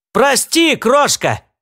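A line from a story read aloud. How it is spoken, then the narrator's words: Shouted over shoulder. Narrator (Russian): крикнул он через плечо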